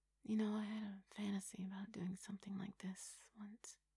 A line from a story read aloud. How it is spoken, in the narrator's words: she murmured, not wanting her voice to disturb the gentle quiet of the night